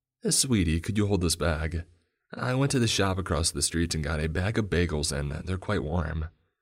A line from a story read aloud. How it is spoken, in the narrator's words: my mother said hastily